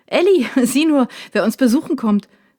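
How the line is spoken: Calling to another room. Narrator (German): ruft Dad Richtung Küche

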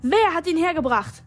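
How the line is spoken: Shouting into crowd. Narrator (German): schrie Avery in die Menge hinter ihr

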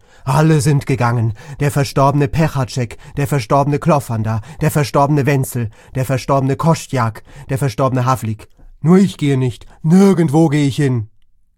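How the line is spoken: Shouted. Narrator (German): Er fing an, wild mit den Armen zu fuchteln und schrie

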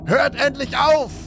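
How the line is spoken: Man shouting. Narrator (German): schrie er

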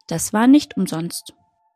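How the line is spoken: Calm tortoise. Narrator (German): sagte die Schildkröte ruhig

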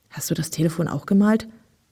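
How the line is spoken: Whispered into ear. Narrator (German): flüsterte Kalle in Wilmas Ohr

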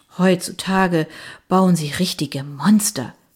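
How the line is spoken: Sigh. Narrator (German): seufzte Mary French

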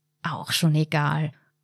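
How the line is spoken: Murmured. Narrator (German): murmelte sie

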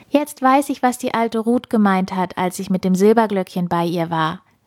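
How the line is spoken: Happy call. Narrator (German): rief sie glücklich

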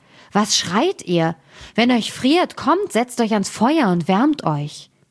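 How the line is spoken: Calling out. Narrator (German): rief er

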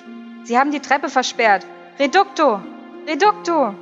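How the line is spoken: Calling voice. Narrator (German): eine Stimme rief

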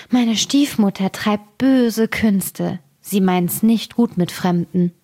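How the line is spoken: Girl sighing. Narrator (German): Das Mädchen seufzte und sprach

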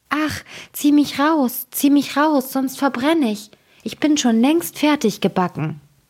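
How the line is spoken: Bread calling out. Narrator (German): Das Brot aber rief

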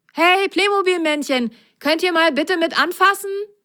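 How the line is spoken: Called out. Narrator (German): rief er

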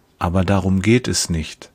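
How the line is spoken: Gentle. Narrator (German): sagt er sanft

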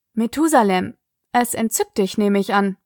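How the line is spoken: Dry remark. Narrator (German): bemerkte Sig trocken

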